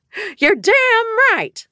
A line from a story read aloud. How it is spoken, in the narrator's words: Liza shouted